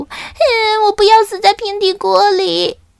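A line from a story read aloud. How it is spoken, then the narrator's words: Terrified wailing sob. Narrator (Chinese): 他们被这个平底锅的预言吓坏了，小刺头嚎啕大哭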